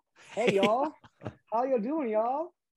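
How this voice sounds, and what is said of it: Put-on Kentucky accent. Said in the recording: “your Kentucky accent there? Like, what's your best Kentucky accent?”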